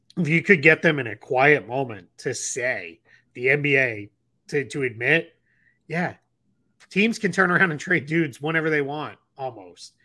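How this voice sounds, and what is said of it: Hoarse, strained voice. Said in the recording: “I'm losing my voice because I've done a lot of radio and podcasts about the CBA over the last 2 days.”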